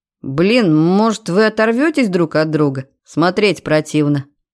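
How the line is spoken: Grumbled. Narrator (Russian): проворчал Серега

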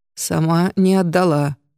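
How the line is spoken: Lifeless, creaky voice. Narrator (Russian): ответил тот неживым скрипучим голосом

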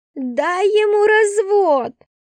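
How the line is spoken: Shouted. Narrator (Russian): закричала Кристина

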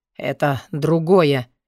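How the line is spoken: Hoarse, then coughing. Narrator (Russian): хрипло сказал он и закашлялся

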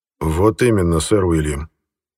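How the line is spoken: Hypocritical sigh. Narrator (Russian): лицемерно вздохнул британский премьер

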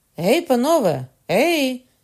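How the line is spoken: Shout. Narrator (Ukrainian): крикнула Маргарита

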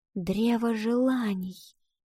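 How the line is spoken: Girl's whisper. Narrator (Russian): прошептала девочка

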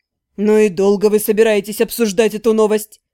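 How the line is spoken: Snorted. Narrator (Russian): фыркнул Кэрри

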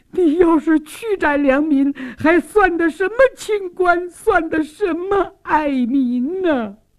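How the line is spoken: Tearful plea. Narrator (Chinese): 苏旭娟也哭诉说

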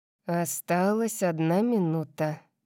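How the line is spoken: Muttering. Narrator (Russian): пробормотал он

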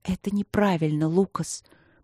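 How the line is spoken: Whispering. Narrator (Russian): прошептала она

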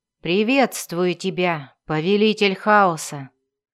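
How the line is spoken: Solemn. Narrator (Russian): торжественно произнес Дзирт

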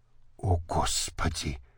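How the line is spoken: Whisper. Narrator (Russian): прошептала Анюта

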